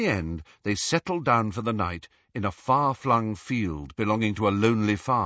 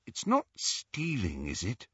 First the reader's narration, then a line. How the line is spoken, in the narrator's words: asked Hermione in a troubled voice